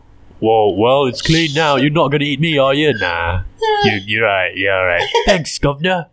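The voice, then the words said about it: Put-on street urchin accent. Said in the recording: “I don't know why the accent. Oh, it's an urchin because it's a street urchin.”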